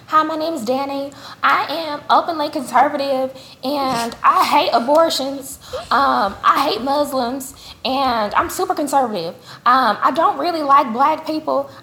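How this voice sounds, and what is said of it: Mocking impression of a bigoted woman. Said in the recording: “I'm going to try to do my best impersonation of a racist bitch ... that's how she sounded, in my head at least”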